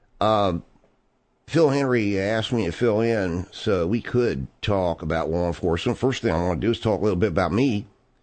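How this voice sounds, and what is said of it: Baltimore accent. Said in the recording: “as you probably can tell from a very distinct, what some people call Baltimore accent”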